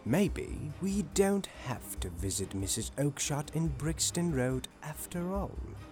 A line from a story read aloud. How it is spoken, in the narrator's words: said Holmes to me quietly